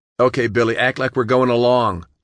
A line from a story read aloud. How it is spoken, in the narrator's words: John shouted